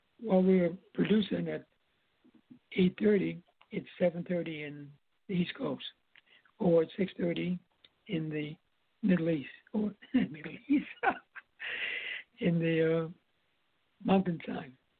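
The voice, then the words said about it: Strained, worn-out voice. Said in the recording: “As you can hear, my voice is not hanging up that well.”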